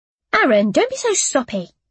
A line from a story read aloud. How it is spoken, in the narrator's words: I snapped